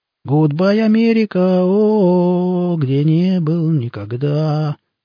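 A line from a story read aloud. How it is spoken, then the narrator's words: Badly off-key singing. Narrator (Russian): Ужасно фальшиве пропел Шурик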